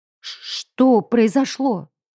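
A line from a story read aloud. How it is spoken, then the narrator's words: Stuttering from shock. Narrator (Russian): От шока и испуга я заикаюсь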